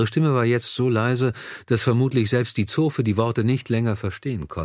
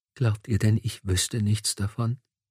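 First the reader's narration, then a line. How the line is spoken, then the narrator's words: Whisper. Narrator (German): wisperte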